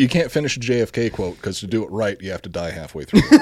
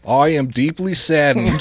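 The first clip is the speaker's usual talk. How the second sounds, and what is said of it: John F. Kennedy impression. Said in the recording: “That's my JFK”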